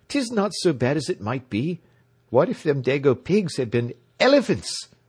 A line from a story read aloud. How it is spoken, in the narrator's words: said cheerfully